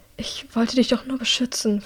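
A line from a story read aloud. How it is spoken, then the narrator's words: Whispered, calming down. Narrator (German): flüstert, als sie sich ein wenig beruhigt hat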